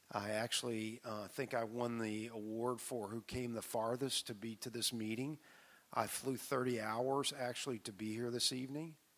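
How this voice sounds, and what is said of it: Slightly hoarse, froggy voice. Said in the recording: “my voice sounds a little froggy”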